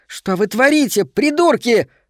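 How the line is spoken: Shriek. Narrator (Russian): взвизгнула она

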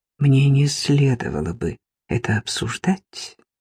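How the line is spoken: Whispered. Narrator (Russian): прошептала она

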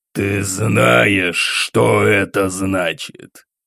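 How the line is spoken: Hissed. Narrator (Russian): прошипел Раджа

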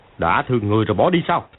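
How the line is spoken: Shouted. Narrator (Vietnamese): Tôn Bất Nhị quát

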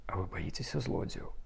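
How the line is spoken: Girl whispering in ear. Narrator (Belarusian): шапнула дзяўчына яму на ўха

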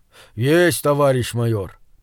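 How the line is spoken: Deep booming voice. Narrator (Russian): пробасил гигант

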